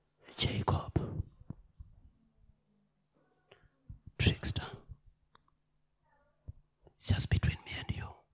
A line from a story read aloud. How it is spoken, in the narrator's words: Whispering, he said